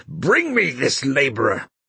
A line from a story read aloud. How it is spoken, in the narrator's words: Wang Lung called out in a terrible voice